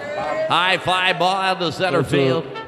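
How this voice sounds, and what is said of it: Imitates a baseball announcer. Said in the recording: “Can you do impersonation of any baseball announcers? ... Harry Carey. ... No, that's the Dodgers guy.”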